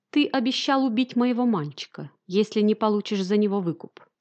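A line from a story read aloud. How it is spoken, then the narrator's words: Calm voice. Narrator (Russian): спокойным голосом продолжал он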